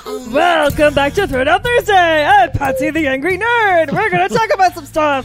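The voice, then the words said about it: Goofy Muppet-like character voice. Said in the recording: “he sounds like a Muppet ... They go a little Muppet”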